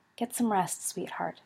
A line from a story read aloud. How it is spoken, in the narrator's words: she said softly